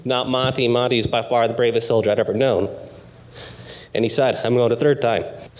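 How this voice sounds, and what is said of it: Choked-up, emotional voice. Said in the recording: “Sorry, I'm a little choked up here.”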